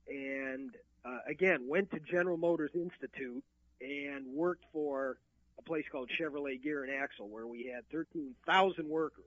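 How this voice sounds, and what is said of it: Michigan accent. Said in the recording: “I still detect it in you here. So I still get some of that gosh and gee, a little of that Michigan accent”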